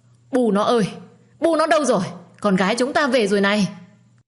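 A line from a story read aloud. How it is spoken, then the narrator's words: Shouting while running. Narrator (Vietnamese): vừa chạy vừa hét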